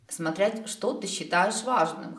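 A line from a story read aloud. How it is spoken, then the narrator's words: Snorting. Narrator (Russian): хмыкнул Дроу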